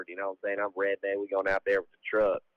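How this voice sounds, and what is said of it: Put-on Southern US accent. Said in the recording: “I got the South covered ... That's about the accent I can do.”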